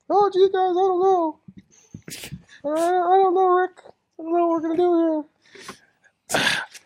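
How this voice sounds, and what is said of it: Morty impression from Rick and Morty. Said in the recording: “Do you want me to do the Morty voice?”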